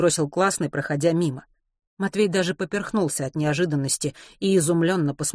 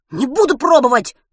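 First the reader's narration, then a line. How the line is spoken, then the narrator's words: Angry boy shouting. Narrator (Russian): сердито крикнул мальчишка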